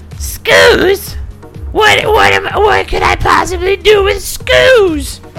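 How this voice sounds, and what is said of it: Imitated voice of a lizard character. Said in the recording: “That's a good imitation. ... And that's how he sounded.”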